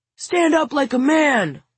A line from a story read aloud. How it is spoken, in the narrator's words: Lars shouts